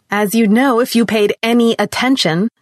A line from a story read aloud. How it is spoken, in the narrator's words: continued, her voice rising